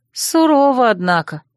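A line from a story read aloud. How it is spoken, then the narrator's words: Grumble. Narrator (Russian): проворчала я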